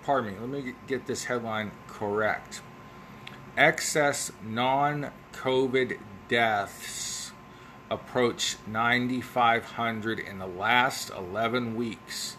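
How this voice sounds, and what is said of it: Ohio Valley American accent. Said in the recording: “my Ohio Valley accent”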